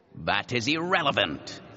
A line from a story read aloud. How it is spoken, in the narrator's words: he said irritably